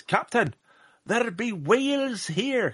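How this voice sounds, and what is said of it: Poor put-on Scottish accent. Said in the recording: “that was a terrible Scottish accent”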